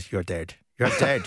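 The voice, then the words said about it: Put-on Irish accent, menacing. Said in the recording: “Sorry about the Irish uh, accent.”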